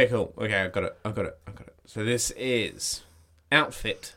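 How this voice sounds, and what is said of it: Usual voice. Nothing is said of it.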